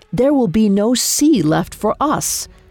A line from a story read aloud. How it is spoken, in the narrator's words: His face a bluster of rage, he roared